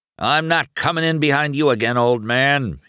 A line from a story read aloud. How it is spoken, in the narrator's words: he cried